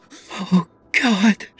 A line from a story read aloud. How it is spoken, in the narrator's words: she breathed